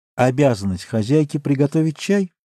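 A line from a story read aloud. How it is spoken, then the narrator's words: Half-questioning, half-asserting tone. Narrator (Russian): сказала она свойственным ей полувопросительным, полуутверждающим тоном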